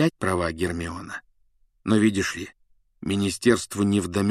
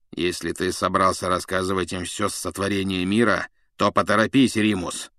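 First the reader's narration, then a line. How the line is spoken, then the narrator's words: Grumbling. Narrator (Russian): проворчал Блэк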